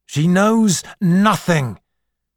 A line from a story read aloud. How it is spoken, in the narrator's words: shouted Lemus